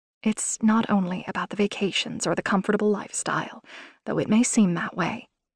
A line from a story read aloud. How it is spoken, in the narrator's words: she said, her voice just above a whisper